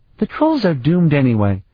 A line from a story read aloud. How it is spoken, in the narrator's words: the child goddess sighed